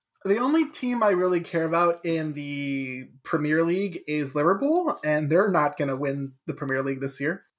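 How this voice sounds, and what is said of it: American accent. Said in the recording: “I have an American accent ... I am an American.”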